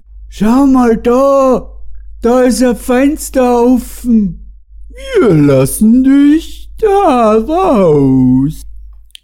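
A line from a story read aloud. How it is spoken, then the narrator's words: Calling out. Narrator (German): Matthias rief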